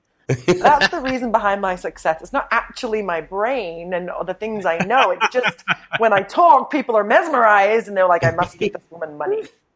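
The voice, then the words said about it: British accent. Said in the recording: “a British accent. That's sort of our Achilles heel. If you have a British accent”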